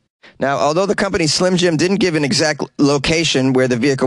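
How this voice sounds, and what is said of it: Usual voice. Nothing is said of it.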